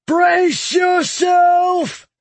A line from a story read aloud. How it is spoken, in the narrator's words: Lorth roared